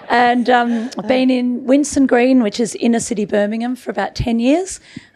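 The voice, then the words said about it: Birmingham English accent. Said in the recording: “I'm from Birmingham, as you can tell by my accent.”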